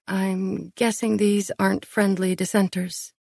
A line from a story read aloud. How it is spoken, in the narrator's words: I asked